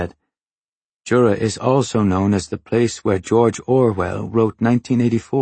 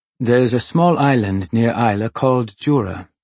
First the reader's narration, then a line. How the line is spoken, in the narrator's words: he said